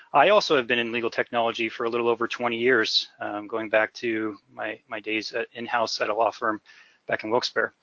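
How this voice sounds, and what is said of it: Northeastern Pennsylvania American accent. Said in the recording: “If you can tell from my accent, I'm originally from northeastern Pennsylvania, so not quite Australia, but also pretty unique.”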